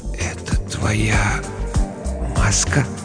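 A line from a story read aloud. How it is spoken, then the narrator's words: Whisper. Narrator (Russian): Прошептал я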